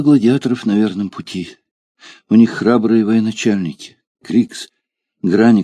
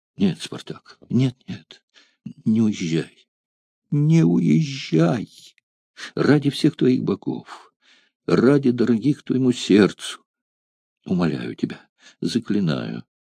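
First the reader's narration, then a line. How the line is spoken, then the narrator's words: Trembling, grief-stricken voice. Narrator (Russian): Дрожащим голосом, подавленная горем, она говорила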